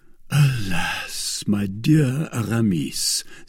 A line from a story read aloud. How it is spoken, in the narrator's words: said D'Artagnan, in his turn heaving a profound sigh